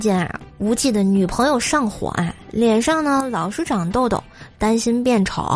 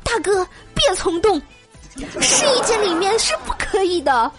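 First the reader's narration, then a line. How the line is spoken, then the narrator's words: Shouting through door. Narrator (Chinese): 导购小姐在喊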